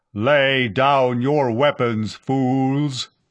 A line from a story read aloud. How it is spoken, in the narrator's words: the amplified voice boomed at them